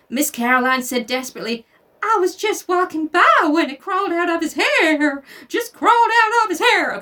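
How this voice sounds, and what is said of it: Put-on accent reading character dialogue. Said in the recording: “that's the funnest accent to do”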